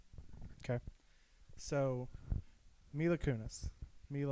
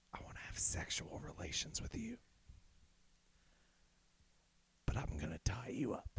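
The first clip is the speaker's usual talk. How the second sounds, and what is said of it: Demonic, sinister character voice. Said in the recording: “Now she sounds like a demon. She sounds like the Babadook now.”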